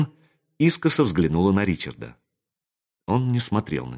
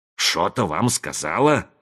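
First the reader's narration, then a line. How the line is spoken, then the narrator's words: Angry mocking mimicry. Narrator (Russian): сердито передразнил Зет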